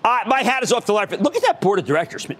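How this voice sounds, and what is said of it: Strong regional accent. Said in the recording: “That accent. I hate that accent. I can't get rid of the accent.”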